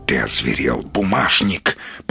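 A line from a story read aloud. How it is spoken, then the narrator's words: Hissing wolf. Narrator (Russian): прошипел волк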